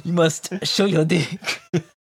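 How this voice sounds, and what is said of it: Poor put-on French accent, sounds Italian. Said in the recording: “What accent are you doing? ... That's not a French accent at all ... Why are you doing the Italian thing?”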